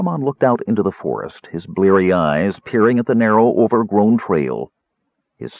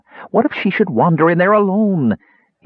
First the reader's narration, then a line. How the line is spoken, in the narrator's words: he asked pleadingly